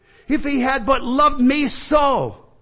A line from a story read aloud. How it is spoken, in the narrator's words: cried